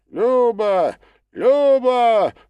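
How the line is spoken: Shouted in unison. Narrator (Russian): закричали все практически единогласно

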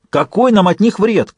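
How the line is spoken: Startled frightened shout while running. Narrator (Russian): крикнул Джек на бегу, удивленный и напуганный реакцией Фиста

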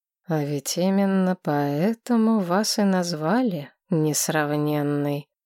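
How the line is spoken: Slow deliberate speech. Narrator (Russian): медленно произнес ректор

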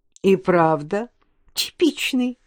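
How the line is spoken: Giggling. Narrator (Russian): хихикнула Марина

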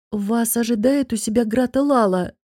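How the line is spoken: Timid. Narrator (Russian): робко сказал хранитель покоев

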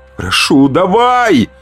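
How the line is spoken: Silent inner yell. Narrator (Russian): вопил про себя

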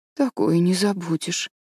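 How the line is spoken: Sad. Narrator (Russian): печально произнесла Энн

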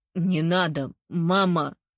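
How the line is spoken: Choked wheeze. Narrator (Russian): сдавленно прохрипел Михаил

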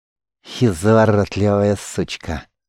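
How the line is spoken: Slight lisp. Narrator (Russian): Он сплюнул кровью и слегка шепеляво продолжил

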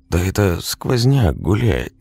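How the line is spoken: Uncertain whisper. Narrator (Russian): неуверенно прошептал Сенька

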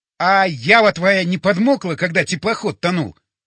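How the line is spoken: Nearly shouting. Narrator (Russian): почти закричал я

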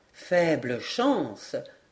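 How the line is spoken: Plain. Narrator (French): répondit le major

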